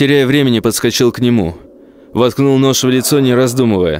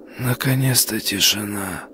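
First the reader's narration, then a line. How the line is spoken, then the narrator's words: Whisper into nothing. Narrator (Russian): Прошептал в никуда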